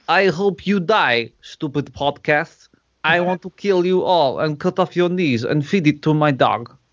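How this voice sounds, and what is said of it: Bad put-on Russian accent. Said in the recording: “I've murdered his accent ... a really crap Russian accent ... my terrible accent ... your crappy Russian accent”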